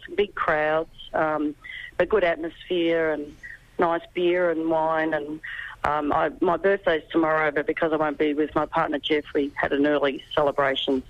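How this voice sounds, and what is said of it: Rusty, slightly hoarse voice. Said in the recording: “my voice is a bit rusty this morning”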